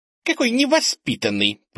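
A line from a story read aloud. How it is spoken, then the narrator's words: Squeaky voice from behind. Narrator (Russian): пропищал кто-то сзади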